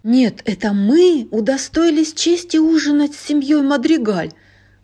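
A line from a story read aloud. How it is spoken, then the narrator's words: Old woman's exclamation. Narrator (Russian): воскликнула бабушка Гузман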